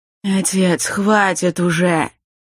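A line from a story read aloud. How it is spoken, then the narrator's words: Heavy weary sigh. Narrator (Russian): Молодой мужчина так тяжело вздохнул, словно ему на плечи лег непомерный груз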